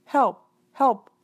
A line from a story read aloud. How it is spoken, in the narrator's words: the imp cried weakly